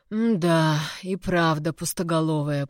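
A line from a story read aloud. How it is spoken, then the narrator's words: Grumbling under breath. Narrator (Russian): пробурчал себе под нос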